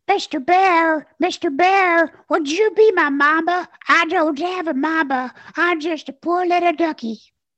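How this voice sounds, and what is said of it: Little orphan duck cartoon voice. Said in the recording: “he was a little orphan duck walking around following Yogi. And this little voice came out of him ... do that voice”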